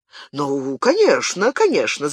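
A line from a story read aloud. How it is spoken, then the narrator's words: Babbling. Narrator (Russian): залепетал Генрих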